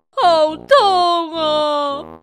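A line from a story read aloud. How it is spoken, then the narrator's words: Sudden cry of pain. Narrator (Chinese): 鲁班突然大叫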